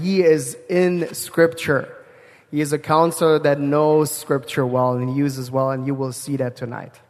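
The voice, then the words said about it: German accent. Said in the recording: “Germany where I come from, so the accent is on purpose”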